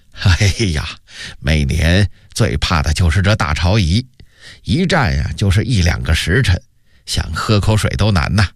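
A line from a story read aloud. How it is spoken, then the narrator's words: Smiling. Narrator (Chinese): 杨荣笑着说道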